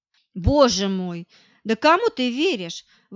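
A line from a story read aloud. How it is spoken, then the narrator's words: Furious exclamation. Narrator (Russian): воскликнула я в бешенстве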